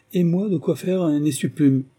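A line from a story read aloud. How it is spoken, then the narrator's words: Exclaiming young woman. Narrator (French): s'exclama la miss numéro 2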